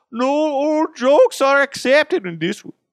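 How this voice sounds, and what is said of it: Poor put-on Irish accent. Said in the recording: “That's a really shitty Irish accent.”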